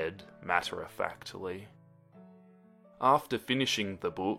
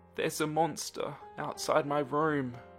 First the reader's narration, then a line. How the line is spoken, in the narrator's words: she said in a small, shaky voice